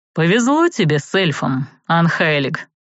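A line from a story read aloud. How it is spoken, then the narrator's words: Dry remark. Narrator (Russian): сухо отметил архимаг Виттор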